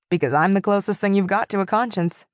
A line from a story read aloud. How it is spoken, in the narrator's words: said the tabby cat dryly